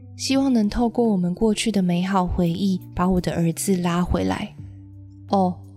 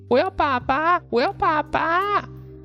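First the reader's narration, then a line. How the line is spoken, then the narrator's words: Old man crying out repeatedly. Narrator (Chinese): 老先生不断地叫喊着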